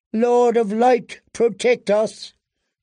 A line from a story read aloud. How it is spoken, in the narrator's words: cried Queen Selyse